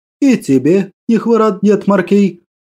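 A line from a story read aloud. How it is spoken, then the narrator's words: Cheerful laugh. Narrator (Russian): Весело рассмеялся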